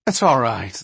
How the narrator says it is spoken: the other interrupted quickly

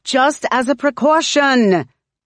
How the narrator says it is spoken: she says, but it's as sharp as a shout

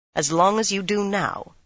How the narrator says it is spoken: she said firmly

